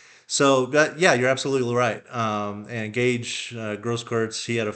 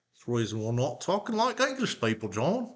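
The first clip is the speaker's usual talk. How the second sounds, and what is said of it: Attempted British accent. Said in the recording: “That's my best attempt at a British accent, I guess.”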